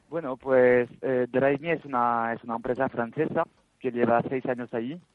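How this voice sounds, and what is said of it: French accent speaking Spanish. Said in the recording (Spanish): “Yo soy francés, se nota, se nota con el acento”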